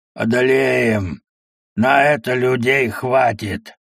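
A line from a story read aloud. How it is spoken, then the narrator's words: Grim hoarse voice. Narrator (Russian): Один мрачный голос прохрипел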